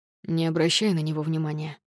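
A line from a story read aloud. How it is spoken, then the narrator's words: Plain. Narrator (Russian): сказал полицейский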